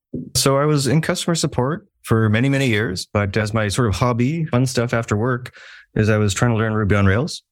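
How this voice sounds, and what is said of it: Canadian accent. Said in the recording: “as you can tell by my accent ... I am Canadian”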